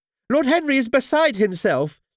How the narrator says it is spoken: Lady Henry explained, her voice shrill with agitation

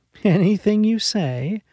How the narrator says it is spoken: Molly laughed

